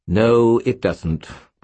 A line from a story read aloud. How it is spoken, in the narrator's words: Bob said scornfully